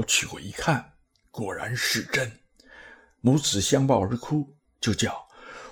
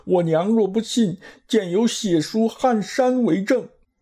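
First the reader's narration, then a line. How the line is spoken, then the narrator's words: Weeping loudly. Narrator (Chinese): 玄奘听说是他母亲，哀哀大哭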